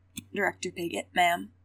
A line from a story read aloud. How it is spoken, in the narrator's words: Aegis greeted her, his voice strained